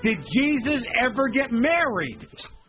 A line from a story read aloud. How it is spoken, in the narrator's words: Suddenly, I'm screaming at Kathy Bates